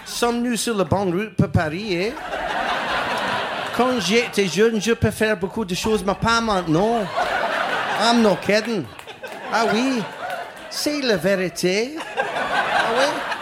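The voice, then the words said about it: French spoken in Scottish accent. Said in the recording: “speak French in a Scottish accent”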